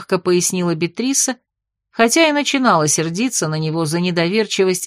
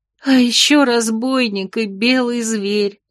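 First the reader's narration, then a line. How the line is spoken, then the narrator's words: Bitter sob. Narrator (Russian): Неожиданно для себя самой горько всхлипнула старшина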